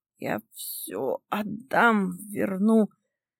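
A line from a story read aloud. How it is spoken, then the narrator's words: Hoarse father. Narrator (Russian): хрипит отец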